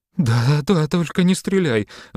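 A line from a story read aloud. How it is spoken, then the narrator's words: Pleading. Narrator (Russian): взмолилась Алочка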